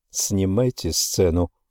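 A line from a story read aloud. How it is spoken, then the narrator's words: Calm. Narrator (Russian): спокойно сказал Иисус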